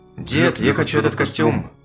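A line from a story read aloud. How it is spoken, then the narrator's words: Monster's growl. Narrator (Russian): прорычал монстр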